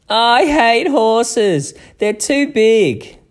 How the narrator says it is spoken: screamed Lucy

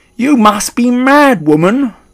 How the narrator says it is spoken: cried Mr

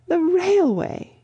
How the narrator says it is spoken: gasped Miss Lavish

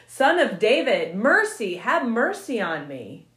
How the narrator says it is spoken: he yelled all the louder

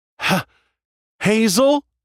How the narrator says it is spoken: I called out

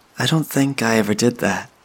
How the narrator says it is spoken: Sadie noted, smiling sadly at the idea

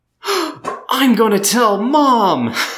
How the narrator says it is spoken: she yelled

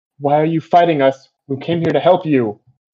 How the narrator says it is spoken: And I'll yell

